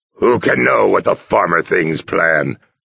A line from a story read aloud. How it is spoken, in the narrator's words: Mad Bear asked crossly